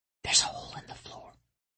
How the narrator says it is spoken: he whispered

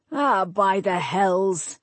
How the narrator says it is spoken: Nevin snarled

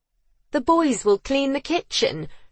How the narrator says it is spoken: she said, her tone disbelieving

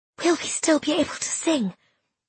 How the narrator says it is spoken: I whispered

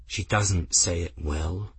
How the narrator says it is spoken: Benedict said in a low, hard voice

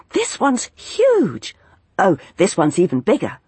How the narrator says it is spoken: calling out excitedly

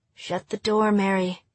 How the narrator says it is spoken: Marjorie whispered

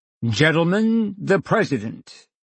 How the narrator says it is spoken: in a stentorian voice announce

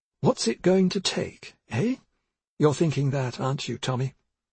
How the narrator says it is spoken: she added, in an altered tone

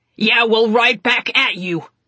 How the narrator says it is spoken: Constantine shouted

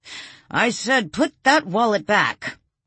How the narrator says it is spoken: The man shouted

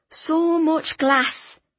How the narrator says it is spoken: he said shakily

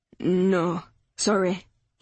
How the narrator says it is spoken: he mumbled

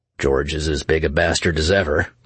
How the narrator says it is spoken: informed him merrily

